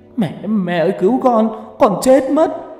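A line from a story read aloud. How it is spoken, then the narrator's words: Running, crying scream. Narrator (Vietnamese): Có thằng vừa chạy vừa khóc thét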